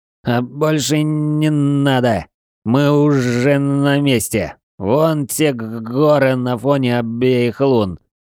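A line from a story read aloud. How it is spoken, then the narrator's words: Slightly stuttering. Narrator (Russian): слегка заикаясь, ответствовало лежащее рядом тело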